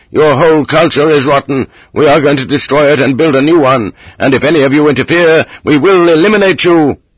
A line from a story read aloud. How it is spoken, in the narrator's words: Getting wilder and wilder, screamed